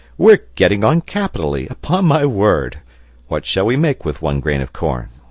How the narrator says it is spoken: said Pencroft, laughing

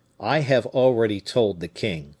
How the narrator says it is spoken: added he coldly

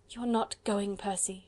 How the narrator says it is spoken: she murmured, and her own voice now sounded hollow and forced

